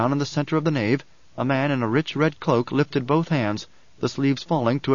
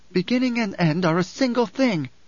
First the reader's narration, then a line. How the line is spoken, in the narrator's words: Alia snapped